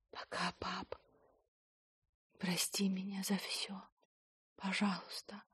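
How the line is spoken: Whispered. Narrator (Russian): Рина прошептала

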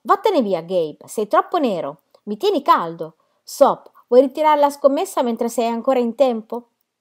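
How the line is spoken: Shouted. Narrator (Italian): urlò

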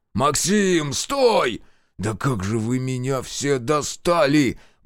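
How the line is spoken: Exasperated groan. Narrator (Russian): простонал майор

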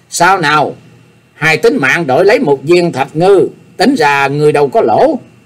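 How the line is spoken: Smiling speech. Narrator (Vietnamese): Nhạc Chi Dương mỉm cười, nói

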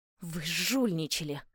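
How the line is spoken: Angry, fearful through teeth. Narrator (Russian): зло процедила, холодея от ужаса

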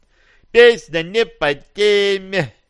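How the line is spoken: Joyful yell. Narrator (Russian): радостно завопил Аполлон

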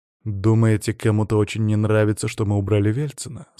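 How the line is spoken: Plain. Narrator (Russian): спросил я

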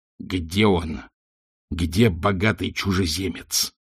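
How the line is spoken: Wizard hissing. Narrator (Russian): прошипел волшебник

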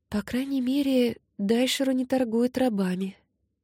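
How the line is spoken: Muttering. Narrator (Russian): пробормотала Кари

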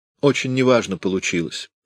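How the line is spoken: Casual tone. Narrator (Russian): заметила небрежным тоном

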